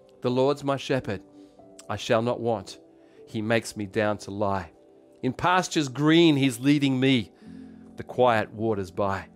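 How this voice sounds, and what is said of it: Australian English accent. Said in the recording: “I'm going to say it in my English, in my Aussie accent ... because I'm Australian”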